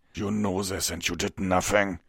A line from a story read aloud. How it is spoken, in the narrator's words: Vengard snarled